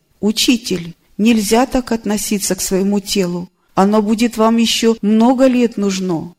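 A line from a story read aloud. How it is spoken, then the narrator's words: Exclaimed. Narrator (Russian): воскликнула ученица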